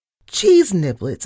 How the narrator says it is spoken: I shrieked

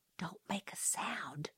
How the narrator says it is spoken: he whispered

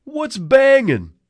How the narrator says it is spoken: Outside, Eddie yelled

